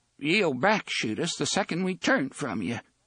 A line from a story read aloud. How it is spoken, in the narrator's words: Jeeves said in a trembling voice